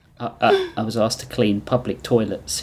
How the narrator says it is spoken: he muttered

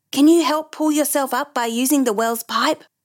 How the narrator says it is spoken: Dan shouted to Brandon

